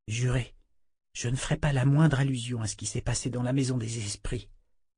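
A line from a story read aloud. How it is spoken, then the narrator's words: Breathed softly. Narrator (French): souffla l'inquisitrice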